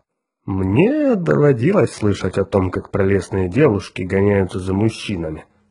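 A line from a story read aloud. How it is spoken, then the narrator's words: Grumbling. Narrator (Russian): проворчал Эзра Гурни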